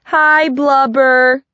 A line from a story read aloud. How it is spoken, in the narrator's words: a bunch of kids called out